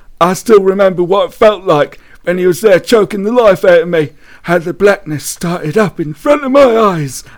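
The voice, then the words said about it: Dramatic reading in put-on accent. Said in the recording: “You should be a voice actor, genuinely. Or maybe you should just do the rest of the podcast in that accent.”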